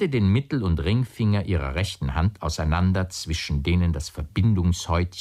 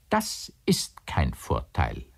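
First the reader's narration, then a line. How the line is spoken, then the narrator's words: Plain. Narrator (German): sagte Leni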